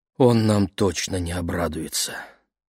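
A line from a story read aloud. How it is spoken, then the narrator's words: Sighing. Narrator (Russian): вздохнула мама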